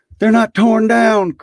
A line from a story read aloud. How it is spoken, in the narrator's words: cried Scrooge